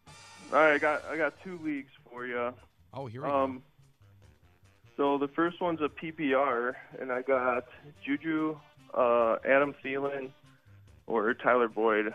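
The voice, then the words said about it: Tired, low-energy voice. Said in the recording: “Sound like you're hurting a little bit. ... You sound a little tired.”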